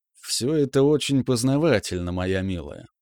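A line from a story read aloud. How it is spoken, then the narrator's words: Queen's purr. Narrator (Russian): промурлыкала королева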